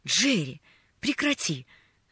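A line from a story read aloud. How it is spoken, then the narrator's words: Annoyed exclamation. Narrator (Russian): С досадой воскликнул он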